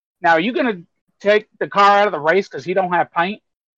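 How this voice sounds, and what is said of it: Poor put-on Southern US accent. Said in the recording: “my shitty Southern impression”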